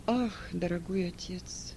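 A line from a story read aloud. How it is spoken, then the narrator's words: Moaning. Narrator (Russian): простонал Марк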